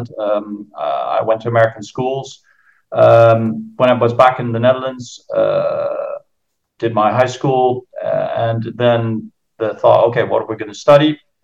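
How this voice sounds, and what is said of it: American accent. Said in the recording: “that's where I got the Yankee accent.”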